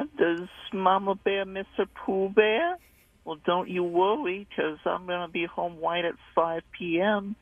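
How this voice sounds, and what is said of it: Pooh Bear character voice. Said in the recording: “Pooh Bear voice”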